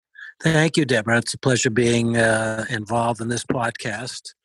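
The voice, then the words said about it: Boston accent. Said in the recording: “my fabulous Boston accent”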